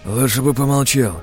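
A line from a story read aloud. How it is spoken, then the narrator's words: Hoarse male voice. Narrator (Russian): сиплым голосом ответил второй мужчина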